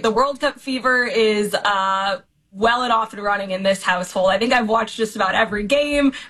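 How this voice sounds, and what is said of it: Voice going hoarse. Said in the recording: “I'm losing my voice”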